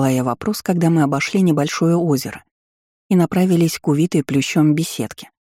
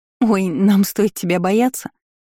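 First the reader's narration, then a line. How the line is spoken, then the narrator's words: Giggled. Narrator (Russian): хихикнула Аннетта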